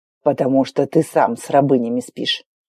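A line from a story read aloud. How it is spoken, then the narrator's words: Hissing. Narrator (Russian): прошипел Норт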